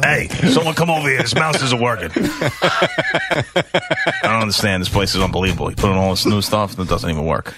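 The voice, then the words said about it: Imitates another person's voice. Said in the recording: “A bad impression... No, he does a phenomenal... Those were both pretty good.”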